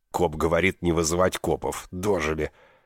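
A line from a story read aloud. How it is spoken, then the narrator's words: Grumbling motel owner. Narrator (Russian): проворчал хозяин мотеля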